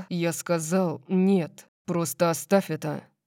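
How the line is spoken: Growling. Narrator (Russian): прорычал он

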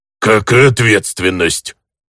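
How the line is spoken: Grumbling orc. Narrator (Russian): проворчал орк

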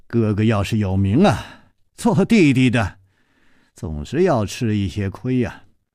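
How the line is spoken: Sighing. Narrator (Chinese): 楚留香叹气了一声说

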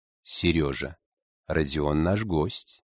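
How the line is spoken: Gentle. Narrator (Russian): мягко напомнил директор

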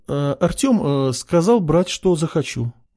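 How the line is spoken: Uncertain reply. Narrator (Russian): неуверенно ответила покупательница

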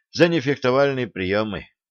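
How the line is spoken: Dejected sigh. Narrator (Russian): удрученно вздохнул юноша

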